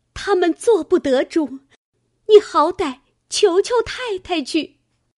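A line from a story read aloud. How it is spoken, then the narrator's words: Crying. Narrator (Chinese): 思琪 哭道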